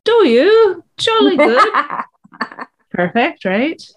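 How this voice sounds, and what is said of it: Poor put-on British accent. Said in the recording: “I should do really poor British accent audiobooks”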